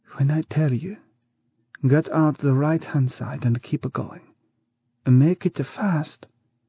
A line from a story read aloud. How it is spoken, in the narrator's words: the woman said in a low voice